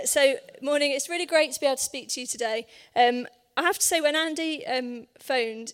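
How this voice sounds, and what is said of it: Hoarse voice. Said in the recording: “bear with me a little bit of voice. ... My voice is a bit hoarse, ... run out of steam”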